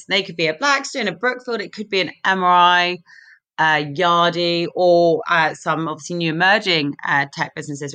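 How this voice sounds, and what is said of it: London English accent. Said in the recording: “Our headquarters is in London, which you can tell from my accent”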